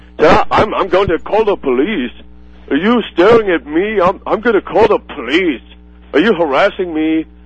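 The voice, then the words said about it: Put-on Russian or East European accent. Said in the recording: “like a Russian or East European accent ... He sounded like Arnold Schwarzenegger or something, the way he talked”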